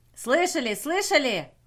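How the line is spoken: Excited yelling. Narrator (Russian): завопил он

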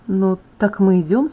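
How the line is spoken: Quiet enthusiastic question. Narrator (Russian): спросил Эдвард тихо, но с энтузиазмом

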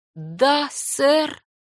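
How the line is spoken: Slow young girl. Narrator (Russian): медленно произнесла девочка

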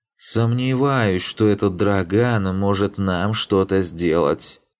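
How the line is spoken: Menacing drawl. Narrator (Russian): Протянул Фарк, и его тон не обещал ничего хорошего

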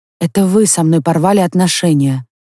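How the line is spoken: Muffled objection. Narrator (Russian): глухо возразила она

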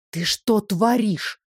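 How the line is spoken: Hissed. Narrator (Russian): зашипела

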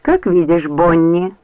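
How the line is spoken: Dry. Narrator (Russian): сухо произнесла Лианна

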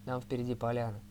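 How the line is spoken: Plain. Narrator (Russian): сказал Торн

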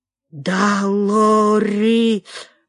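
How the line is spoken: Wheezy rasp. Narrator (Russian): просипел

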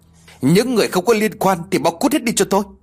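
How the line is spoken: Angry shouting. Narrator (Vietnamese): Không làm chủ được cảm xúc của mình, Lê lên tiếng quát tháo

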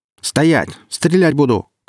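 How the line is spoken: Shouted. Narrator (Russian): крикнул наемник

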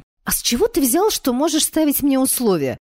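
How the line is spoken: Indignant impulsive exclamation. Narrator (Russian): возмущенно воскликнула я, прежде чем успела сообразить, что говорю

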